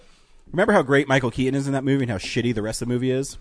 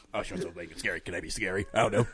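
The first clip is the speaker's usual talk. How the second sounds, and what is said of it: Good Beetlejuice character voice. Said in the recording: “That's a really good Michael Keaton impression, by the way. Not bad. ... That's more of a Beetlejuice impression. ... Yeah, it's more Beetlejuice.”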